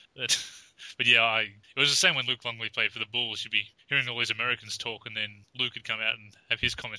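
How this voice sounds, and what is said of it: Natural Australian accent. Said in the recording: “a proper Australian accent ... it's a natural accent ... we certainly do have accents”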